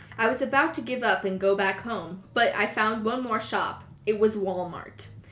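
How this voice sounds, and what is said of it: Put-on accent. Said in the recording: “That's what he talked like... Keep the accent for the rest of the...”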